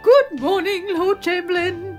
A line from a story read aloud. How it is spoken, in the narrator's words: cried